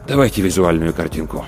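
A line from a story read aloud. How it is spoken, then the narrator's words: Sighing. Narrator (Russian): Рудольф Терентьевич вздохнул и сказал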